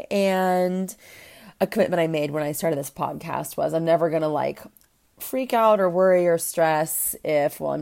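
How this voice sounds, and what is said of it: Hoarse voice recovering from a cold. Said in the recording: “I pretty much lost my voice. ... As you can tell, or if you can tell, I'm getting over a cold.”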